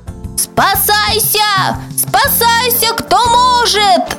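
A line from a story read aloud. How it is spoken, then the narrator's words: Many voices shouting. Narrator (Russian): закричали микробы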